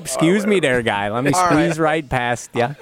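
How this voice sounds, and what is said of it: Put-on Wisconsin accent. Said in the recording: “Get that Wisconsin accent going. ... Roll your O's really good.”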